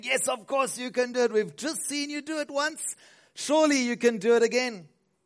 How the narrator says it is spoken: the crowd roared, saying

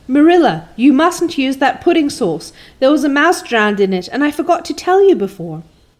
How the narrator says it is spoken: shrieked out

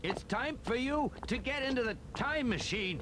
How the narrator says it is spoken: he yelled

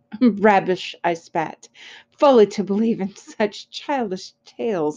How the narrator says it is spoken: I scoffed

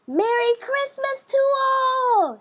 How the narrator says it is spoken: shouted Froggy

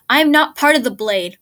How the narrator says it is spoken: Lance snapped

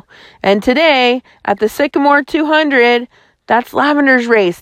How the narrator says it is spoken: Dale cried

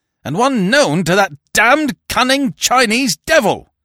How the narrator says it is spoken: roared Barton

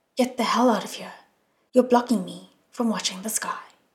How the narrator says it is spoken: Shillian said coldly

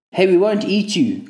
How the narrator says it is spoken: Connor shouted at me

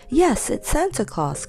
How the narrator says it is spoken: cried Joe

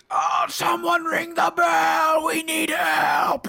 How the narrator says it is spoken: They're both screaming

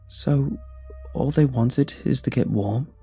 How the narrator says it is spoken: I asked, hesitantly

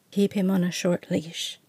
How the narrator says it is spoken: Ash murmured

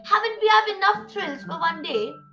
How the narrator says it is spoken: Creepela laughed

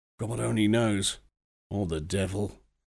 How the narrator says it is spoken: he returned grimly

